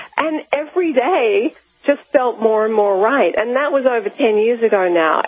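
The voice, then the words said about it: Australian accent. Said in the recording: “my home country is Australia, if you can't tell by my accent.”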